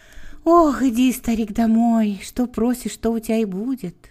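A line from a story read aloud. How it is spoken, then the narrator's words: Gentle, birch tree. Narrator (Russian): ласково сказала береза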